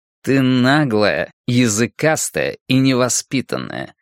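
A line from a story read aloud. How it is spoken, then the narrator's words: Through gritted teeth. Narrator (Russian): процедил я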